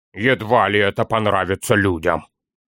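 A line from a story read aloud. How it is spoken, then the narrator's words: Grumble. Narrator (Russian): проворчал Торин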